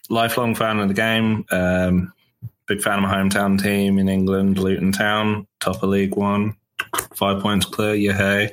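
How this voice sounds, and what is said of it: Foreign accent. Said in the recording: “as my accent gives away, I'm foreign”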